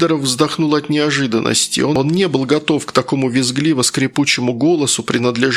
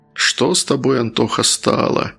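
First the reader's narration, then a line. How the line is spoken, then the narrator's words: Sad musing. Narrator (Russian): грустно задумался Сидоров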